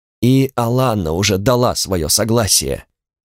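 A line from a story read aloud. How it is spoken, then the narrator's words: Absent-minded mutter. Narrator (Russian): рассеянно, ни к кому не обращаясь, пробормотал Соль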